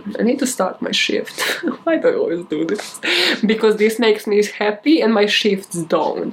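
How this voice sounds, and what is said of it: Non-native English accent. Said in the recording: “English is not my first language. They know you're an immigrant. Like, they hear the accent. First 5 seconds in.”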